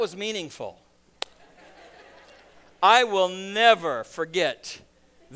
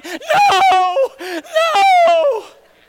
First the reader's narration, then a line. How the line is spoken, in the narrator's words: Kalia burst into tears, hysterically crying